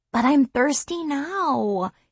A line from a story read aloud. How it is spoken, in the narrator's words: he whines, protesting